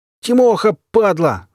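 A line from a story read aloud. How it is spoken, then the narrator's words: Sudden yell. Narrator (Russian): заорал вдруг тот диверсант, что пришел вместе с Олегом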